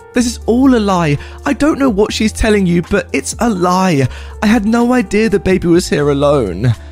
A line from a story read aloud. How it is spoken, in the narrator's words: My sister again starts screaming at the top of her lungs